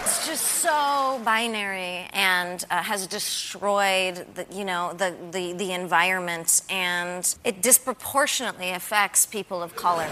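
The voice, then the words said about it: Spoiled entitled millennial character voice. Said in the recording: “Give me your best impression of, like, a spoiled millennial... the most entitled, ungrateful, spoiled brat who thinks she knows everything”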